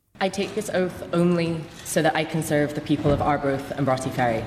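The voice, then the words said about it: Scottish accent. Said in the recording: “her changing accent ... accused of having a fake Scottish accent”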